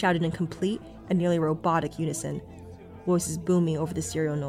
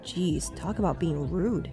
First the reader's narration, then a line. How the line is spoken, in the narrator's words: murmured under my breath